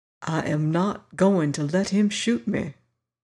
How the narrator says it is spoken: he said quietly

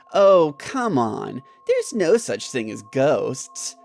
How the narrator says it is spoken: Jim replied in a mocking tone

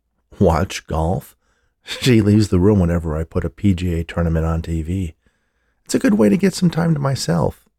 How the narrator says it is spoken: he laughed

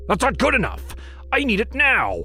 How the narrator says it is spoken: he barked

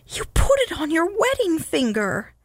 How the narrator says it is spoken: Lou wailed

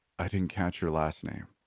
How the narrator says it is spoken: I murmured

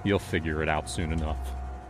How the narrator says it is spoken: I said, my voice cold, almost distant

